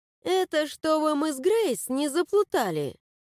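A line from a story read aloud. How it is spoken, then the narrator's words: Laughing. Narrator (Russian): Норт рассмеялся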